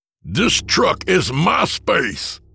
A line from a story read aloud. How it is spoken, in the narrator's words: Spittle flew from his father's mouth as he screamed